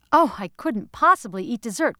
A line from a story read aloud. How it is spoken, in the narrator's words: cried Mrs